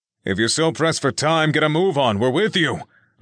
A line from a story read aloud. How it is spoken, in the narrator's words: Oliver yelled from the back of the group